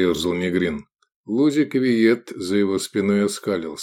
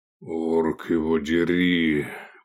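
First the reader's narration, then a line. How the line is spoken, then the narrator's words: Grumbling. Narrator (Russian): проворчал Негрин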